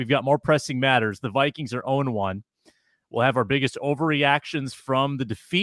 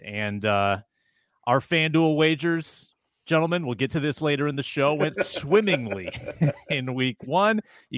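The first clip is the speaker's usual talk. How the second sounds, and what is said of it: Sarcastic tone. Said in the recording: “You can tell by my tone, they did not at all.”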